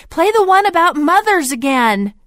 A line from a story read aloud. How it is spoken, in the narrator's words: one young man yelled out from the back